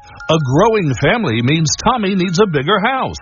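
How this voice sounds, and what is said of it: Booming radio announcer voice. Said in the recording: “announcer voice”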